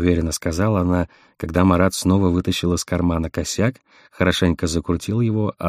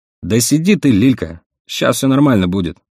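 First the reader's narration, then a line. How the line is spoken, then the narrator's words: Snapping irritably. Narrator (Russian): огрызнулся Вадик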